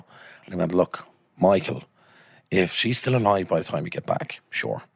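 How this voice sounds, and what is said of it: Put-on D4 Dublin accent. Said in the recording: “I just get my D4 accent.”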